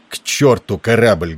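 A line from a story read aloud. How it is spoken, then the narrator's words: Rude interruption. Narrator (Russian): грубо оборвал его Тернер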